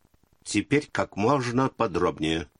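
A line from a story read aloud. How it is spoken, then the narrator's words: Stern order. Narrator (Russian): строго велел Карнович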